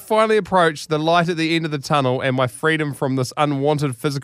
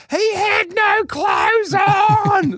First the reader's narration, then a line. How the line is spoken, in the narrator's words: slowly fading into the distance